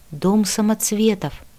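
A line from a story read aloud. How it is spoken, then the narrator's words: Whisper. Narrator (Russian): прошептала я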